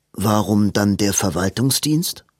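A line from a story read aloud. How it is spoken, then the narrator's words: Plain. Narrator (German): fragte Edwin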